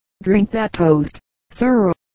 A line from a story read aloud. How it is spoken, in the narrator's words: saying in a low earnest voice